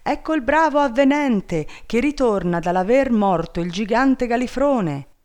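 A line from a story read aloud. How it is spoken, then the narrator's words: Crowd shouting. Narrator (Italian): tutta la gente gli andava dietro gridando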